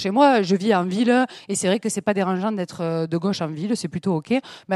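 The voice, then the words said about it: Southern French accent. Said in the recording (French): “je sais pas si ça s'entend depuis tout à l'heure, je sais pas si vous l'avez remarqué, mais j'ai l'accent du sud ... cet accent ne vient pas de Grenoble”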